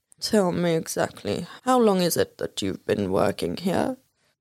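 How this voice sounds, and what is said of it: Alan Rickman impression. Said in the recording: “my Alan Rickman impersonation”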